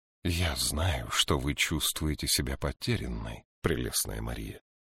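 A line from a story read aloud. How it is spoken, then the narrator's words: Quiet. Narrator (Russian): тихо сказала Аспитис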